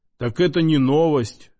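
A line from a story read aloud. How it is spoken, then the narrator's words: Mustached man's snort. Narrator (Russian): хмыкнул усач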